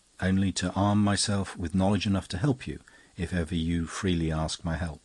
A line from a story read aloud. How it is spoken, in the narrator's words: he replied very gently